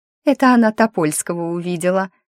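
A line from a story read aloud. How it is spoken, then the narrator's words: Mocking young woman. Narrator (Russian): говорит насмешливо девица у окна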